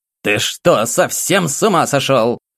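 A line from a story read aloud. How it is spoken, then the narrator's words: Barked angrily. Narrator (Russian): рявкнула Елизавета Альгердовна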